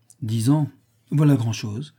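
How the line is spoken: Plain. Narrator (French): dit Federigo

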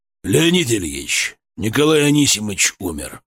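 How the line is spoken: Gloomy report. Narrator (Russian): мрачно доложил Ребенко

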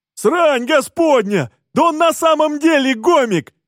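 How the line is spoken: Yelling. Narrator (Russian): вопит один из обезьян

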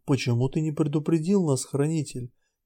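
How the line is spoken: Quiet question. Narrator (Russian): негромко спросила вдруг Тель

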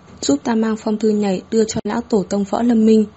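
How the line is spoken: Slightly hoarse. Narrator (Vietnamese): Hứa Thất An thanh âm có chút khàn khàn

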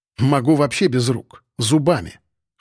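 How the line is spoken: Snorting. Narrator (Russian): хмыкнул

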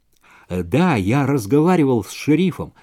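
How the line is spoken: Plain. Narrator (Russian): сказала Джонни

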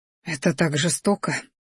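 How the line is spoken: Anxious breathy. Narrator (Russian): выдохнула, тревожно смотря

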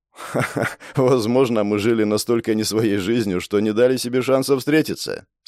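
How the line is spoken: Laughing. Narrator (Russian): смеясь спросил Степан

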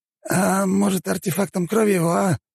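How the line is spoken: Hoarse wheeze, bandit. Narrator (Russian): просипел второй бандит

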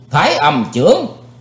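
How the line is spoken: Loud shout. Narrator (Vietnamese): Chí Tôn quát lớn

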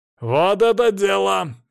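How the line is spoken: Glad barking shout. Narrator (Russian): рявкнул обрадованный Свари

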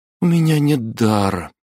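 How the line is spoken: Shaky sigh. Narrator (Russian): судорожно вздохнула Аделина

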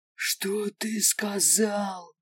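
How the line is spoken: Growled, several voices. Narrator (Russian): прорычали огры

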